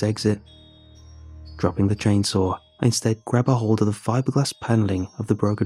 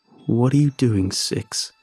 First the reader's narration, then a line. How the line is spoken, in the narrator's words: He asks me in his low, wet voice